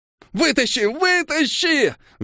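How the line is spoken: Shrieking. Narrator (Russian): визжал Иутул

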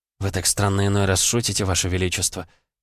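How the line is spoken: Quiet. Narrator (Russian): тихо проговорила она

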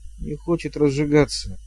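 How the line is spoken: Muttered. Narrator (Russian): пробормотал Шут

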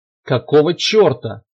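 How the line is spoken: Furious bearlike roar. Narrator (Russian): взрычал генерал рыком голодного медведя, только что наступившего на большой и страшный охотничий капкан

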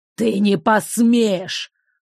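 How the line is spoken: Furious old man's hiss. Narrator (Russian): прошипел разъяренный старик

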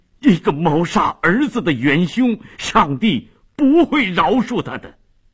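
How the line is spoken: Shocked, grief-stricken shout. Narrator (Chinese): 费迪南异常震惊，悲愤地喊着

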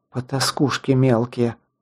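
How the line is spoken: Angry mutter. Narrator (Russian): зло пробормотала Лесла

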